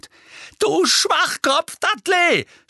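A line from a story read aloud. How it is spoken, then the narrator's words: Shouted. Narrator (German): schrie Harry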